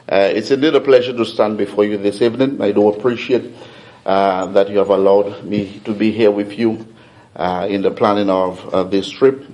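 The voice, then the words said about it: Thick French-influenced accent. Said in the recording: “my accent may be thick because I'm steeped in French”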